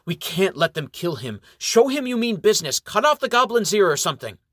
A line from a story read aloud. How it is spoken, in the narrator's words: Brother Umbert blurts out to Sir Robert Roger